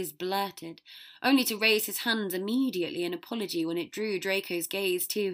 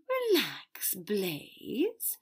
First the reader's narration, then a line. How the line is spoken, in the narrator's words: Draco drawled